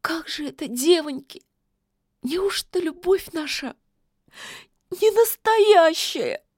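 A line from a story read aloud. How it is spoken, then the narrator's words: Sobbing. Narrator (Russian): всхлипнула она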